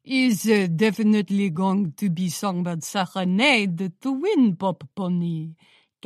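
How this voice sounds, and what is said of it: Thick foreign accent. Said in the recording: “in her thick accent.”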